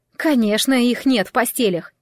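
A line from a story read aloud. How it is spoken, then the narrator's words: Sharp, curt. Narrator (Russian): резко бросила Джемма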